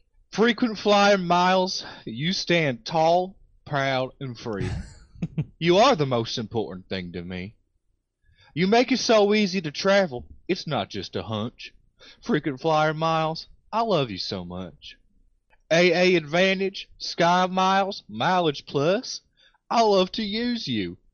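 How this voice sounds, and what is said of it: Put-on accent. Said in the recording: “let's hope my accent can stay on base this time”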